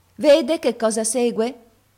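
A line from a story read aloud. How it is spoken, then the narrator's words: Sour-voiced maid. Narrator (Italian): venne fuori a dire la cameriera con la sua voce agra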